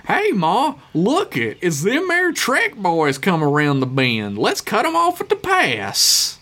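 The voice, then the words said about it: Good old boy accent. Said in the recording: “the accent of just a good old boy ... I have multiple good old boy accents”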